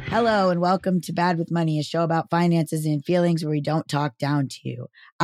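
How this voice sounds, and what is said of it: Hoarse voice. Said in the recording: “I can't tell if my voice is like this from testosterone or from the weekend I've had... that sounds hoarse, not deep”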